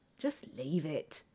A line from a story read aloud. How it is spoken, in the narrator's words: Cressa says wearily